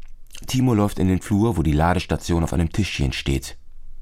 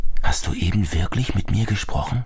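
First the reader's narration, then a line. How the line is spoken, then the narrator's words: Whispered. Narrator (German): flüstert dem Telefon zu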